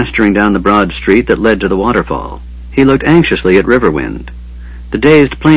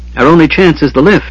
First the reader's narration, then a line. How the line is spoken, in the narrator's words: he yelled